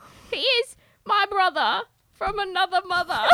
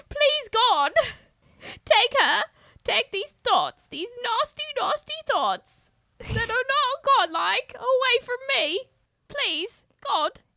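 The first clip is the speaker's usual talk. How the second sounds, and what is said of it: Imitates another person's accent. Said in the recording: “why Gwyneth Paltrow accent? ... I can't even understand what you're saying anymore.”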